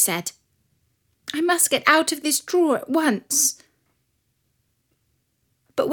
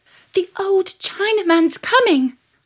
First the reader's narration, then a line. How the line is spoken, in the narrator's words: cried the little shepherdess, who was so upset